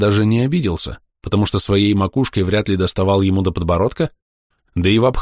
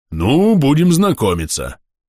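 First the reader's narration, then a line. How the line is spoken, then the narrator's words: Deep booming giant's voice. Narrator (Russian): прогудел великан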